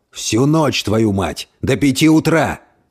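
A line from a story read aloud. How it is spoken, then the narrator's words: Barking. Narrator (Russian): рявкнул тот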